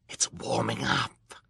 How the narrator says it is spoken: Count Olaf said in a delighted wheeze

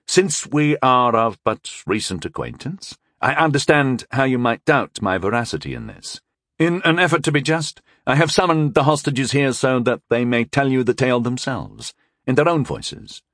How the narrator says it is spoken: I began again calmly

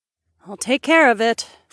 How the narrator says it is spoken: Freya sighed

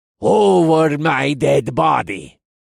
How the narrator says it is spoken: he growled

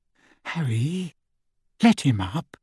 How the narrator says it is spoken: Hermione whispered

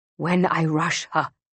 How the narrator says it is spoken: Musa whispers, barely audible

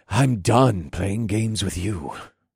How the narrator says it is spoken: the elder scout growled

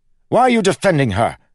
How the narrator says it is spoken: snapped

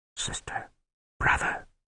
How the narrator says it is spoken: the wizard whispered

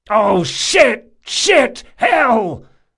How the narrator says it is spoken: Locke shouted, bending helplessly over the dying alchemist

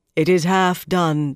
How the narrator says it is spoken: the Ammerlin intoned

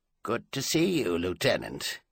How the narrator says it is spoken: he said with commendable understatement

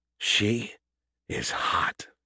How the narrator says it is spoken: he whispered

